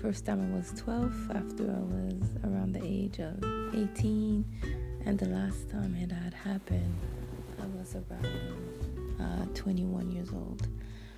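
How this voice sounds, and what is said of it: French Canadian accent. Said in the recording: “I'm from the beautiful city of Montreal, Canada. So this is the reason why I have an accent. I speak French fluently, and English is my second language.”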